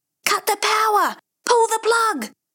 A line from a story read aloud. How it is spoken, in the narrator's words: the two men screaming